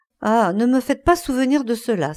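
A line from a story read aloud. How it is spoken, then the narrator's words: Exclamation. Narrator (French): s'écria Dorian Gray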